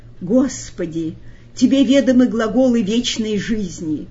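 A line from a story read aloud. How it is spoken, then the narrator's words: Rapturous exclamation. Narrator (Russian): Петр восторженно воскликнул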